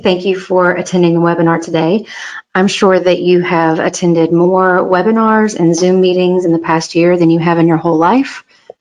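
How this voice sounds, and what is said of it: Light Southern US accent. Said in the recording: “any hint of a Southern accent that you hear is 100% organic and homegrown”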